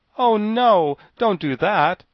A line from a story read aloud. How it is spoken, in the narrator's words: exclaimed the Tin Woodman